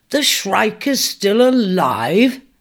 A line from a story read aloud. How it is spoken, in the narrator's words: he laughed with disbelief